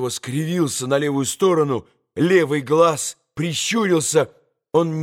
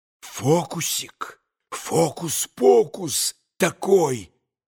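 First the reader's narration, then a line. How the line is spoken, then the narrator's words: Repeated whispering. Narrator (Russian): Все шептал штабс-капитан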